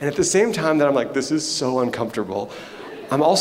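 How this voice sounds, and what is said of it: Usual voice. Nothing is said of it.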